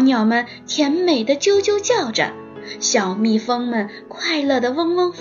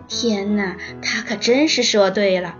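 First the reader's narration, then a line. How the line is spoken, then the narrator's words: Little mouse, smiling. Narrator (Chinese): 小老鼠笑着说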